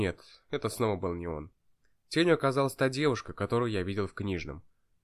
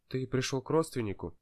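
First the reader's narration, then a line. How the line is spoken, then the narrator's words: Quiet question. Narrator (Russian): тихо спросила она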